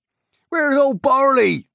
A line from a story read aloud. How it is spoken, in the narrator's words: they cried